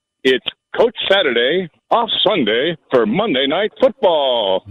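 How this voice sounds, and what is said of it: Announcer voice. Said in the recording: “using an announcer voice there”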